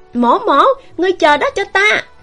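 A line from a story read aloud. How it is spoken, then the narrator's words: Loud yell. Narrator (Vietnamese): tiếng người hét lớn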